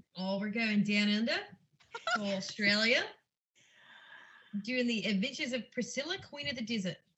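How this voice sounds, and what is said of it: Put-on Australian accent. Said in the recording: “I wish I could do this accent ... Oh, wow. That was so good ... I thought I could do an English accent, but it turns out it's an Australian.”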